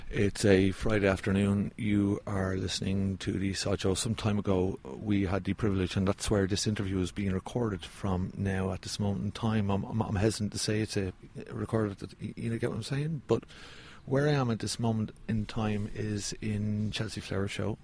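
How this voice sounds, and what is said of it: Unusually quiet voice. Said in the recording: “My voice is a little bit quiet for some reason”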